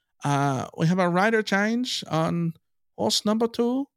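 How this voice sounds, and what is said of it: Poor fake South African accent. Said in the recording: “that's a terrible South African accent. Awful.”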